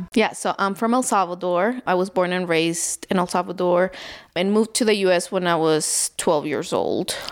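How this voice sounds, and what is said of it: Foreign-accented English. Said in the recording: “I know you have an accent.”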